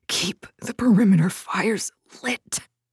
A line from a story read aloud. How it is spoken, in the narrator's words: he gasped